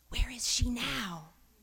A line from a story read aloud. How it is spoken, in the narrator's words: Florence whispered